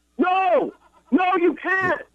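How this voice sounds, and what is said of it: Yelling. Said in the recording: “Why are you yelling”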